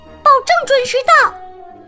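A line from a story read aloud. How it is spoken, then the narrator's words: Loud. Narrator (Chinese): 米莉大声说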